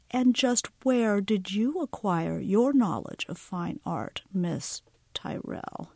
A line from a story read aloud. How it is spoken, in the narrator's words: Speaking slowly, as if she wasn't sure Josie spoke English, Meredith said